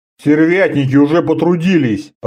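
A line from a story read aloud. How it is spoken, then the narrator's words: Grumbled. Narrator (Russian): проворчал Орда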